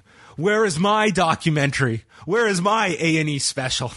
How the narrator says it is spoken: Finn Balor is sick of all the legends and is mad that Edge and Rey got documentaries, which led to him yelling

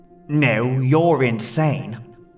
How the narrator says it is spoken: the figure said in a disgusted tone

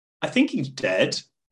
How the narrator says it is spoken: Palia dryly commented

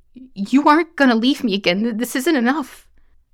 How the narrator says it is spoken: cried

